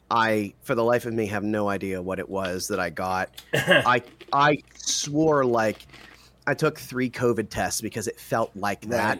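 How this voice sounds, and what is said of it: Congested, sinus-affected voice. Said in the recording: “I'm sure you can hear it, because I know I can hear it in my voice. I still have a little bit of a sinus thing”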